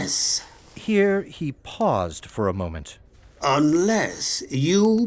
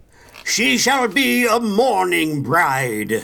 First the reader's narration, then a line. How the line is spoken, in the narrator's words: cried the king savagely